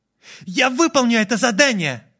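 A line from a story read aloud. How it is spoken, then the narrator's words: Girl shouting. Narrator (Russian): прокричала девушка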